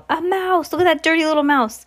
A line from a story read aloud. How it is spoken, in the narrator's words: I heard a man's voice yell